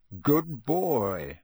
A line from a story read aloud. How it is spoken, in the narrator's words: growled Moody